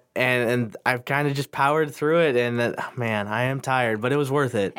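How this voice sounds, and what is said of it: Nasal, congested voice. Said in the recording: “You could probably still tell in my voice. I'm kind of still nasally”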